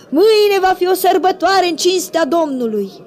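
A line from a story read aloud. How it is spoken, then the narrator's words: Crowd shouting. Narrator (Romanian): au strigat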